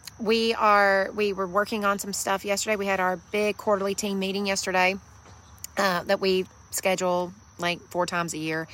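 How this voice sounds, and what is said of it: Slightly hoarse voice. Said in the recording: “I'm a little hoarse. I have literally been talking for days now.”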